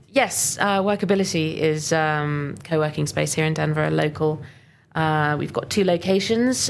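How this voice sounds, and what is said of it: Speaks with a noticeable foreign accent. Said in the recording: “I love your accent so much ... I've got a frog in my throat”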